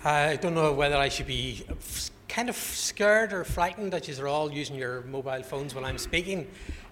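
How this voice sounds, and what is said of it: Northern Irish Belfast accent. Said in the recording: “I'm from Belfast, you can hear my accent”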